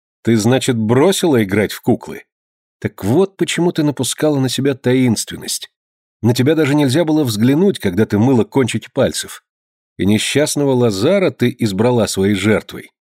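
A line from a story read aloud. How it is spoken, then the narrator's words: Playful, laughing speech. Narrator (Russian): Лазар, продолжая весело смеяться, шутливо заговорил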